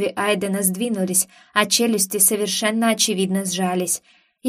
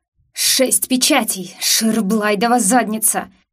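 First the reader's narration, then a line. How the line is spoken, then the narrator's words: Attacker growling. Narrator (Russian): прорычал первый из нападающих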